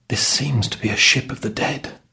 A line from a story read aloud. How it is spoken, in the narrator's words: said the servant quietly